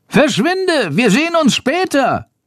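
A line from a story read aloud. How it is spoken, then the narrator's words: Calling. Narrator (German): ruft Schandor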